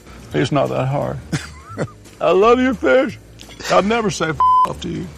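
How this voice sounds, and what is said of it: Bill Clinton impression. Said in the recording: “Bill Clinton, how did you master such a difficult f***ing accent?”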